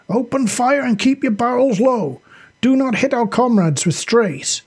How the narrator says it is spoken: Sasha yelled

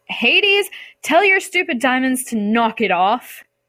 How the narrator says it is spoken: yell

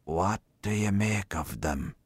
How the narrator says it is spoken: He whispered confidentially

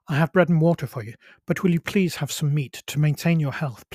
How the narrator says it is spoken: pleaded Maria Elena

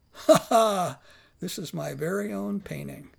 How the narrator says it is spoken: After a pause, he said with a laugh

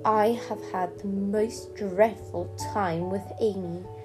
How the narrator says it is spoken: she said

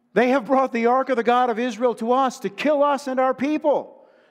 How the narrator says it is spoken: the Ekronites cried out

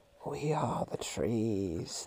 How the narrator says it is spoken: seemed to whisper

